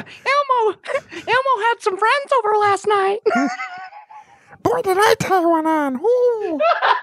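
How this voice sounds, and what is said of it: Elmo puppet character voice. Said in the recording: “that's a good Elmo ... doing the voice”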